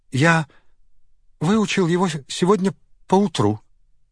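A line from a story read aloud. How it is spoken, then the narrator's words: Trembling voice. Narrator (Russian): дрожащим голосом сказал он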